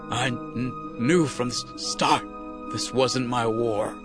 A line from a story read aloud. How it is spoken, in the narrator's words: he stammered